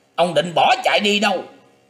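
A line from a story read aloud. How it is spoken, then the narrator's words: Shout. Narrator (Vietnamese): Tiếng quát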